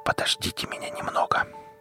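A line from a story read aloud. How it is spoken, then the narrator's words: Man's whisper. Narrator (Russian): прошептал мужчина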